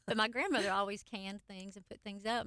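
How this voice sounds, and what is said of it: Country accent. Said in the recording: “I come from a very country family ... This accent would never give that away.”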